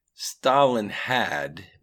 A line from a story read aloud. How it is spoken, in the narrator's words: began Edward again in his slow and analytical voice